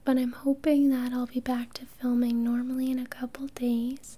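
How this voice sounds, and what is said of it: Soft whispered voice. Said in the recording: “I'm just doing a soft-spoken video, because whispering's still a bit hard on my throat”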